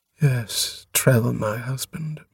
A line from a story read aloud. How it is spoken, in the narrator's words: murmured Atiyaran